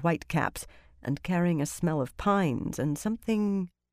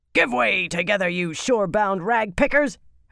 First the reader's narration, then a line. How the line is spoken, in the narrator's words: deck mistress shouted from the bows